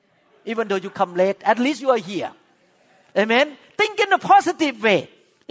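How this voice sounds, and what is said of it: Thai-accented English. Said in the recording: “You have a Thai pastor, speak with Thai accent”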